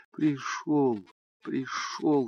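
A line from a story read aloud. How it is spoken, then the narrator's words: Whisper. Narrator (Russian): шептала она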